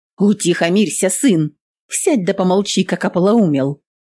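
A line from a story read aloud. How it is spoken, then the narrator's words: Sharp shout. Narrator (Russian): прикрикнула Анна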